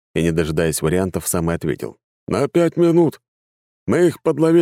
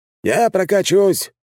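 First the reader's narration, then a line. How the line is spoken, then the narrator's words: Shouted by scientist. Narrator (Russian): крикнул ученый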